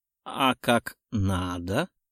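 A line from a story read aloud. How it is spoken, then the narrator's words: Hoarse girl's voice. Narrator (Russian): Хриплый голос девчонки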